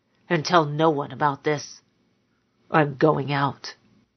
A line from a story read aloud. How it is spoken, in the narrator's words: he muttered to her at last